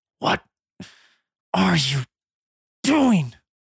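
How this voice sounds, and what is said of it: Breathy, labored whisper. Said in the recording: “whisper in with labored breath”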